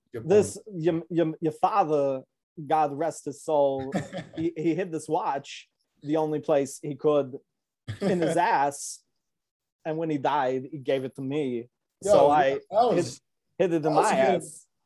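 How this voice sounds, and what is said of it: Imitates another person's voice. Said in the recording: “the Christopher Walken scene ... That was a good impression, man.”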